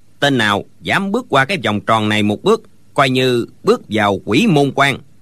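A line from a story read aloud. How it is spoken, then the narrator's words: Old man, cold. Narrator (Vietnamese): lão lạnh lùng nói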